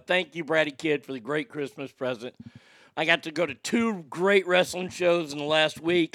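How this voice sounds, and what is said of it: Hoarse voice. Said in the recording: “I'm glad I'm hoarse”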